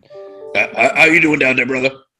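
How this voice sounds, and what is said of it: Strained imitation of another person's voice. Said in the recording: “does that voice and doesn't have to, like, chug 5 bottles of water after that ... that is a really good impression”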